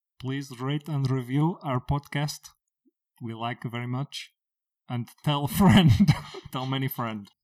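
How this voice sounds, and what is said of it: Put-on Bulgarian accent. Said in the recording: “your lovely accent ... Bulgarian”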